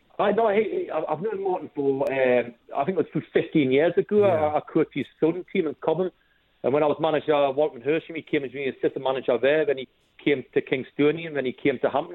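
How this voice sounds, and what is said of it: Slight Geordie accent. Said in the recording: “you don't sound like a native ... I can get in a hint of a Geordie accent there ... It's just a slight lilt”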